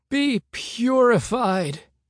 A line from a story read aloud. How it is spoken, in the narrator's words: Hank cried out